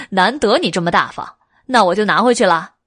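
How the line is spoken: Laughing. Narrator (Chinese): 韦燕笑了

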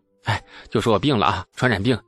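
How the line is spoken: Hurried, frightened. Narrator (Chinese): 李素脸色一白，匆匆地说

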